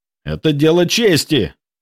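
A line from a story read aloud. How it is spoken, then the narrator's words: Angry bark. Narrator (Russian): рявкнул Петров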